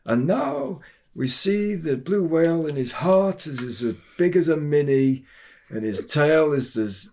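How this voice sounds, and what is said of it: David Attenborough impression. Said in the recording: “David Attenborough was talking ... that was a good impression”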